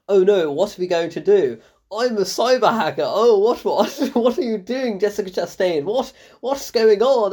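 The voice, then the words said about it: Bad stereotypical British accent. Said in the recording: “British accent. Oh my God. It is so bad. ... worst British accent ever ... so stereotypical”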